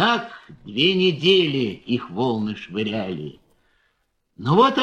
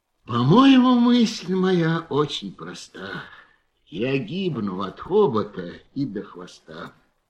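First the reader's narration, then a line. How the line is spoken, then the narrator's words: Weary repetition. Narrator (Russian): слон устало твердил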